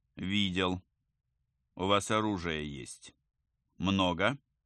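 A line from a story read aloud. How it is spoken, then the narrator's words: Plain. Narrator (Russian): спросил Рогов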